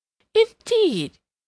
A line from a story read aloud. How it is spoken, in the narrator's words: exclaimed Mrs